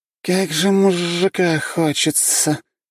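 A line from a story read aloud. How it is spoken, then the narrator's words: Moaning young woman. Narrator (Russian): простонала девушка-муха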